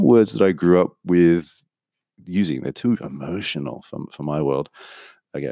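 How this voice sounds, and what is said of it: Usual voice. Nothing is said of it.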